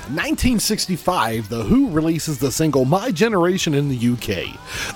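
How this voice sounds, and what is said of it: Announcer-style radio voice. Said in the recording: “doing it in my special radio voice”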